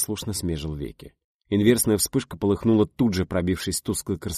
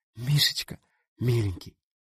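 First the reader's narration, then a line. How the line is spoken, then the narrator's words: Tender whisper. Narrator (Russian): нежный шепот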